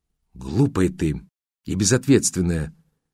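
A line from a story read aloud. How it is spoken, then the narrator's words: Sighing sober friend. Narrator (Russian): вздохнула абсолютно трезвая подруга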